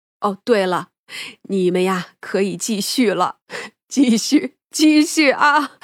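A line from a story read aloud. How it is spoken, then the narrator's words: Bursting into laughter. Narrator (Chinese): 三娘呢也是扑哧一声笑了出来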